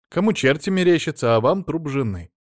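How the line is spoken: Snide. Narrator (Russian): ехидно сказал Алексей

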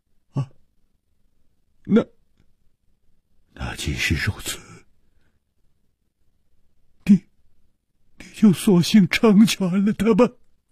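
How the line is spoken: Stunned, hoarse. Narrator (Chinese): 李玉涵愣了半天，哑声说

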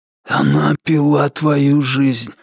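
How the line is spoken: Hoarse whisper. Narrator (Russian): хриплым шепотом объяснил маркиз Карабас

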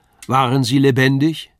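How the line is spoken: Called out. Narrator (German): rief er

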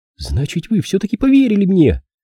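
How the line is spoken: Excited exclamation. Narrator (Russian): воскликнула Филлис

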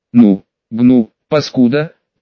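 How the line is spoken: Delirious rasp. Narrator (Russian): прохрипел я, находясь на грани безумия и беспамятства

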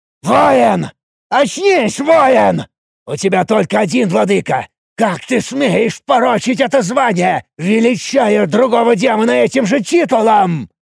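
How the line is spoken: Old creature's roar. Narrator (Russian): Буквально взревел старый имп

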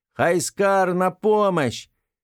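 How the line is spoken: Loud shout. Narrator (Russian): громко закричала

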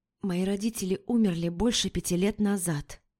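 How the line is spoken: Horrified whisper. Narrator (Russian): прошептала я, с ужасом

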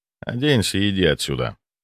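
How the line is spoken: Dry, curt. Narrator (Russian): сухо сказал я

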